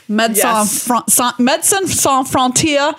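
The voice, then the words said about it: Put-on French accent. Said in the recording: “That's my French accent for you there.”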